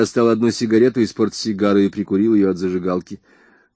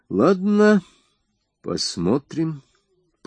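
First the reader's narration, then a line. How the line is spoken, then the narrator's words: Drawn-out drawl. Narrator (Russian): протянул я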